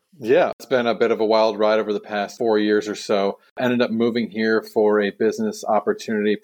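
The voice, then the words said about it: American accent. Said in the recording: “I hear an American accent”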